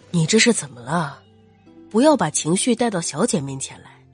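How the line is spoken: Soft question. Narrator (Chinese): 轻声问他

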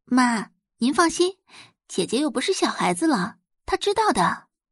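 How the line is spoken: Soft, smiling. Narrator (Chinese): 宋宝仪笑看周磊，柔声道

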